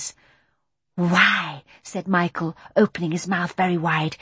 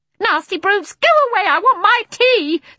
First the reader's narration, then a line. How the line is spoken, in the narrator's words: screamed one of them